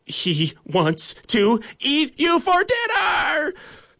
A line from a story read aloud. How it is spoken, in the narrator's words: Nugget's classmates scream at them